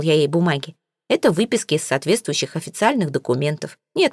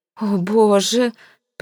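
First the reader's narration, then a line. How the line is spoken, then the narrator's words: Moaning lady. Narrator (Russian): простонала дама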